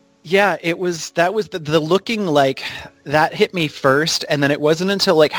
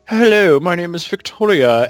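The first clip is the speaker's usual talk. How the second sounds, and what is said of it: Snobby upper-crust voice. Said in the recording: “Victoria's kind of like the upper crust, like snobby.”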